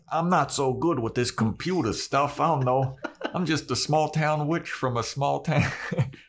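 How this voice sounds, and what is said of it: Put-on regional accent. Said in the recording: “Everybody has that accent now.”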